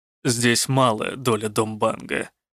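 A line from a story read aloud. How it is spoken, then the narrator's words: Muttered through clenched teeth. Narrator (Russian): процедил Рук сквозь зубы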